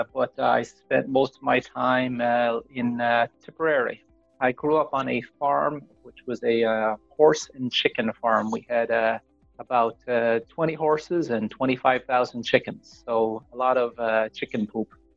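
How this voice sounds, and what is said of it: Irish accent. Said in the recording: “whereabouts in Ireland are you from? Your beautiful accent”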